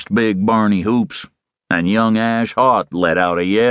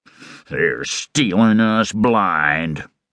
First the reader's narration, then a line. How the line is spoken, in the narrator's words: grumbled Long Tom Haught